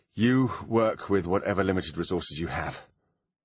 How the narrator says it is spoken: she sighed

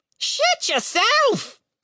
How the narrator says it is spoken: the bird screamed back

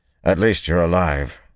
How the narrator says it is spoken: said gruffly

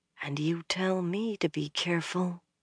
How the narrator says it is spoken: Almost under her breath, Elaine murmured

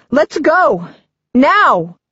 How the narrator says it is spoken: shout

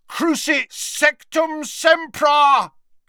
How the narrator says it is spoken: bellowed Harry from the floor

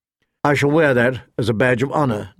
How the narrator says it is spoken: Ned said dryly

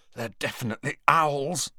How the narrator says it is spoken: said Ron hoarsely

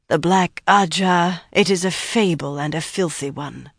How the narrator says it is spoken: she sneered, a trifle hoarsely

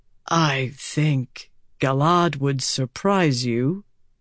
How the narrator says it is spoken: Gawain said softly

